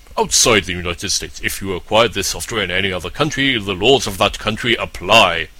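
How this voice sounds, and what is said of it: Mock-serious formal reading voice. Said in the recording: “let's do the serious voice.”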